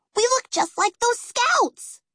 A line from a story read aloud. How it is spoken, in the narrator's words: Peggy squealed